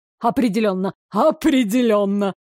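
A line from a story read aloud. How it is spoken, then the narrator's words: Short laugh. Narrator (Russian): хохотнул он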